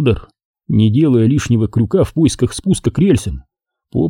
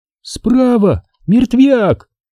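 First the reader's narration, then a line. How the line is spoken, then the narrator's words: Frightened squeak. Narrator (Russian): испуганно пискнула Наталья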